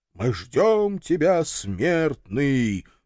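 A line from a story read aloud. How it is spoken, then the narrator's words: Booming chorus in unison. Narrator (Russian): прогудел согласный хор голосов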